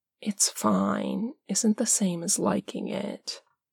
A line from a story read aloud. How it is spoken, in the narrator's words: Parm says, his voice a soft murmur in Dean's ear